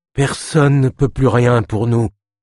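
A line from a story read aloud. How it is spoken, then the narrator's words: Moaning. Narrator (French): gémit la femme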